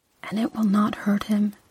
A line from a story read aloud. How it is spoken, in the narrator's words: she whispered